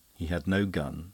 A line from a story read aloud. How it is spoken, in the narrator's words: said the other gravely